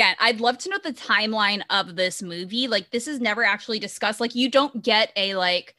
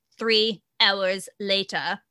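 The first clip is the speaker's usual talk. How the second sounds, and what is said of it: Terrible SpongeBob narrator impression. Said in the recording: “my very terrible SpongeBob impression.”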